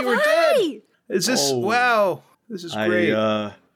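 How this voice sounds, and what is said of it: Put-on character voice. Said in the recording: “does my voice sound weird? I'm just doing a voice.”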